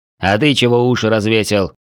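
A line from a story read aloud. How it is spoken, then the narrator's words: Barked. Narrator (Russian): гаркнул страж порядка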